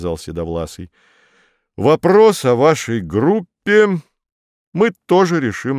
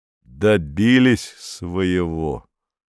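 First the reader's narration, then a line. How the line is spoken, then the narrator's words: Through gritted teeth. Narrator (Russian): сказал Корнеев сквозь зубы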